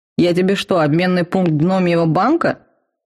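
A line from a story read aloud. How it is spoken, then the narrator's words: Vampire's snort. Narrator (Russian): фыркнул вампир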